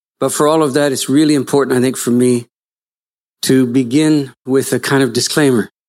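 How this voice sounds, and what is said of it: Canadian accent. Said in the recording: “you can tell by my accent that I'm from slightly offshore ... Canada”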